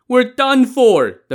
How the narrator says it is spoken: the men shouted in a panic

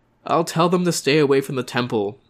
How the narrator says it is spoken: Dato sighed

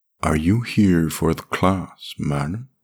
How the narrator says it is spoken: he said, slurring his words

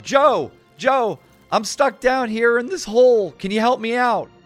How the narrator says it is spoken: he shouts up

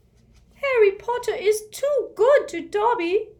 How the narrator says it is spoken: he squeaked, wiping large tears out of his enormous eyes

